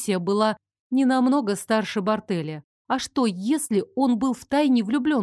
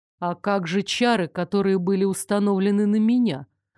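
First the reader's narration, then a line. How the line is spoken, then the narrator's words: Plain. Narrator (Russian): спросил Стефан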